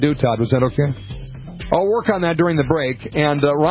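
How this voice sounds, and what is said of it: Usual voice. Nothing is said of it.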